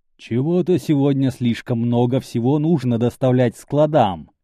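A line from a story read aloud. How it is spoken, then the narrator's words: Deliberately loud. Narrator (Russian): подчеркнуто громко заявил Леон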